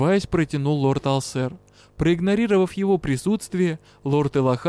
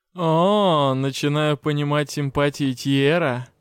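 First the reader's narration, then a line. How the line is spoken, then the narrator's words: Mocking. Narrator (Russian): насмешливо сообщил Алсер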